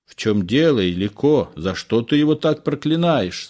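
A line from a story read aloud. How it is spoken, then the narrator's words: Plain question. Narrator (Russian): спросила бабушка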